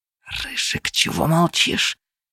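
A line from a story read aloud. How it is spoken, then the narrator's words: Hissed into ear. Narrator (Russian): прошипели мне на ухо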